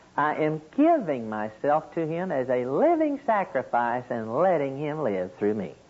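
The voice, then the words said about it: Oklahoma (Okie) American accent. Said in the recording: “my Okie accent”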